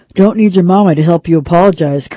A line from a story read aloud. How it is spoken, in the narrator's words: Kirk said